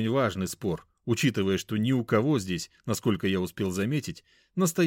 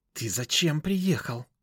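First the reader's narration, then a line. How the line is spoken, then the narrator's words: Angry hiss. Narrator (Russian): зло прошипела Лизавета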